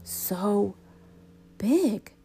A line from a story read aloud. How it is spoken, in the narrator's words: I whispered